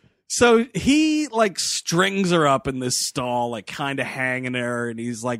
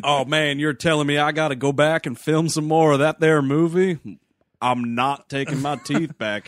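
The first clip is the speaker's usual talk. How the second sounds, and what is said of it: Exaggerated hee-haw hick accent. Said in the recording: “there's a hee-haw accent.”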